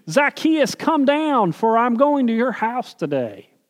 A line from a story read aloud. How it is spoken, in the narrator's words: Jesus called out to the tree